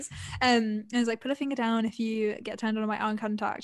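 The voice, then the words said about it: Put-on American accent. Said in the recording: “I don't know why I'm doing that accent, but she was American, so American accents.”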